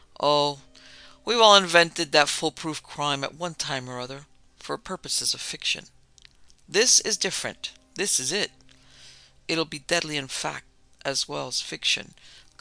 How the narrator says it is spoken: Boyington, thin, acrid, brilliant, soured by lack of public recognition, and his nerves jangled by Cumber's display, muttered

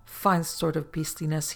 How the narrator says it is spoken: he said

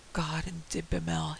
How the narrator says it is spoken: he muttered

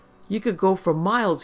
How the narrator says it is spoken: he shouted

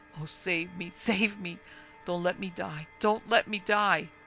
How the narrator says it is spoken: she sobbed

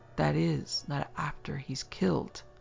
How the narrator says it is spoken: Shorthouse gasped

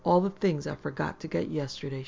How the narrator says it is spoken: explained, laughing

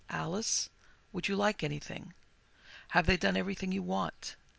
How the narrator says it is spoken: He used to do that, very gently, so as not to disturb me if I really was asleep

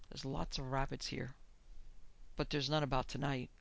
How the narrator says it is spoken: He muttered presently

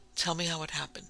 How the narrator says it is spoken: he gasped

